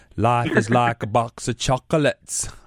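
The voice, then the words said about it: Imitates Forrest Gump's voice. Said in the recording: “my best Forrest Gump impersonation”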